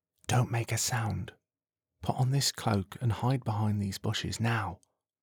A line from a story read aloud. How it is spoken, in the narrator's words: Troy whispers